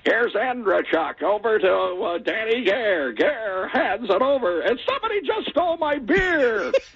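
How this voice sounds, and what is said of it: Imitates a hockey play-by-play announcer. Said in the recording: “I'm going to try to do my best impression of him”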